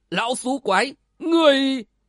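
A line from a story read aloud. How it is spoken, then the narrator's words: Loud laugh. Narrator (Vietnamese): Lôi Chấn Viễn cười lớn một tiếng nói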